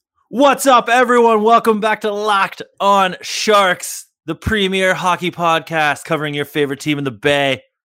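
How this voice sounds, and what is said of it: Hoarse, nearly lost voice. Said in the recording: “If the audio quality isn't great, it's because I basically lost my voice.”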